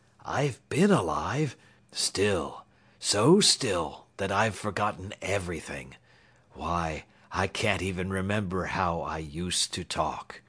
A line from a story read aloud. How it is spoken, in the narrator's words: confessed miserably